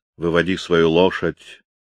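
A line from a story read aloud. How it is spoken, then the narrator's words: Menacing command. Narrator (Russian): велел Твардовский грозно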